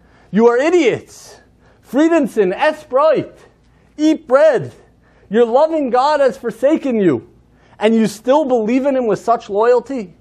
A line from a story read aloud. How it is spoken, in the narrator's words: he began to shout